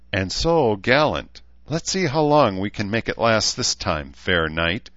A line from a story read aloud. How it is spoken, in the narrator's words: she said with a laugh